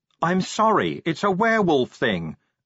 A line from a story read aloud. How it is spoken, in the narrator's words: Angua yelled